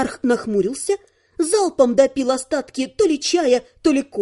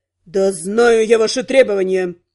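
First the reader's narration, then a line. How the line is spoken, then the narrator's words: Barking. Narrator (Russian): рявкнул Вонгард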